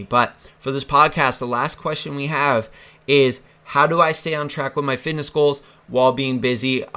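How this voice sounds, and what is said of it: Hoarse, fading voice. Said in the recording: “I'm starting to lose my voice because I'm not feeling the best today”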